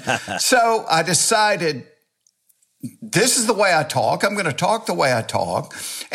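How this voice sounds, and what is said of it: Southern US accent, Georgia. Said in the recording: “you got to lose that stupid accent you got. Take some voice lessons ... where I come from, you have the stupid accent ... you're nothing but an old redneck from Georgia”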